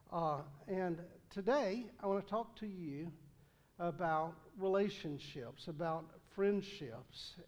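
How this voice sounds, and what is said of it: Thick Southern American accent. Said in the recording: “I speak Southern ... my accent gets a little thick from time to time”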